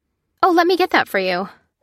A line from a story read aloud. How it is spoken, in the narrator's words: she said cheerfully